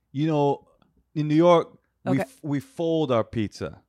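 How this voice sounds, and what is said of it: New Yorker impression. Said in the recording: “your impression of a New Yorker? ... It's really good though.”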